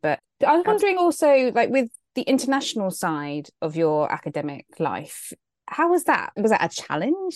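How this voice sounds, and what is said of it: British accent. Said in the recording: “I have so many British friends and your accent is making me super nostalgic right now because I lived in London”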